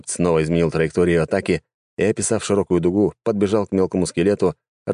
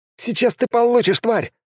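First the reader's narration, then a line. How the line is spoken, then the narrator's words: Exclamation. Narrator (Russian): воскликнул он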